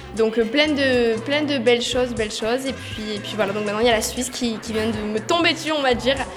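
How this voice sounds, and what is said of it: Slight southern French accent. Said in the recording (French): “j'ai cru déceler un léger petit accent... on a un petit peu l'accent du sud”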